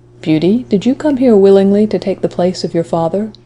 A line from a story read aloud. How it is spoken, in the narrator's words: said in a mild tone